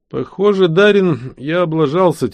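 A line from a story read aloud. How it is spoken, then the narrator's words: Heavy sigh. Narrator (Russian): тяжело вздохнул я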